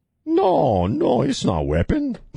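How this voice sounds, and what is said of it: Exaggerated put-on Chinese accent. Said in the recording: “cheesy Chinese accent ... doing the voice of Kim Jong-un from Team America”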